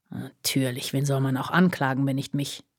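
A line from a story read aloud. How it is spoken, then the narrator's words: Snorting mutter. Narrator (German): murmelte er schnaubend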